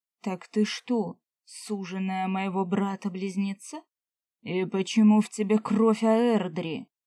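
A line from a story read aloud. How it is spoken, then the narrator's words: Booming bass voice. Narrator (Russian): громыхнул он своим басом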